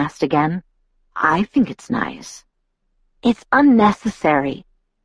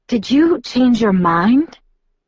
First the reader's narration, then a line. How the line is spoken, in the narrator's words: I asked breathlessly